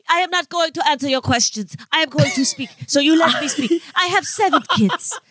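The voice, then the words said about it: Imitation with fake Spanish accent. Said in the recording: “impersonation ... she does a Spanish... accent, like the accent”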